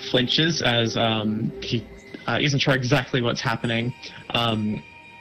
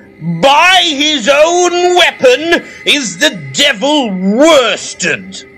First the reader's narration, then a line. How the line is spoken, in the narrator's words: shouts